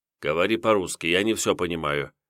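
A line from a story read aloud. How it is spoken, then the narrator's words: Displeased father. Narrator (Russian): недовольным голосом сказал отец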